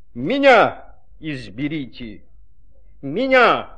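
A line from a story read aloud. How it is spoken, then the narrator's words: Shouting. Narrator (Russian): закричало слово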